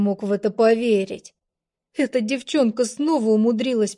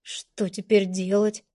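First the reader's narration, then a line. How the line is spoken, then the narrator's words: Quiet question. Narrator (Russian): спросил я тихо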